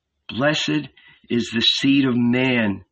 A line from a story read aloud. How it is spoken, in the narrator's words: he murmured